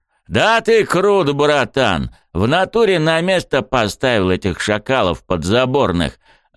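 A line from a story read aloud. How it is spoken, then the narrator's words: Joyful roar. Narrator (Russian): Радостно взревел Рёдзи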